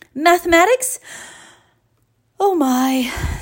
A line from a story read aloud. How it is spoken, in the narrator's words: sighed Mom